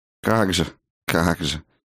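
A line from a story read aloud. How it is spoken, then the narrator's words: Scoffing snort. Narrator (Russian): хмыкнула она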